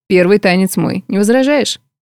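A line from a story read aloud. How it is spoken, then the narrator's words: Casual tone. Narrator (Russian): обыденным тоном произнес Морган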